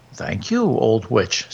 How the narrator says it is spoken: said the soldier

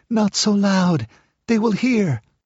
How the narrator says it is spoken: she begged

